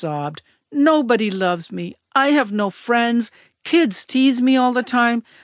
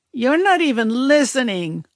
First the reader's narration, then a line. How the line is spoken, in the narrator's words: I whined